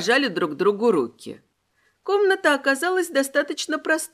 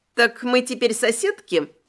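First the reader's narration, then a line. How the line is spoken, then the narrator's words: Cheerful question. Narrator (Russian): весело спросила Кейтлин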